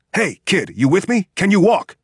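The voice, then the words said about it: Shouted American accent. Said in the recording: “The man had spoken English with an American accent. The stranger repeated himself in a shout.”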